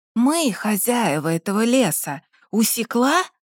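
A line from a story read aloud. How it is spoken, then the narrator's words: Wheezy menacing rasp. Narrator (Russian): Просипел третий, ничем не примечательный тип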